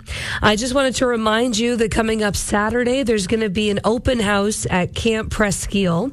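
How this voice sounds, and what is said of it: Hoarse, strained losing voice. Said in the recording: “losing my voice. As you can hear”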